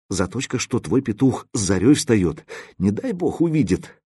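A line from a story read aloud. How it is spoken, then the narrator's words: Sighing, half-sobbing. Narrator (Russian): Она то ли вздохнула, то ли всхлипнула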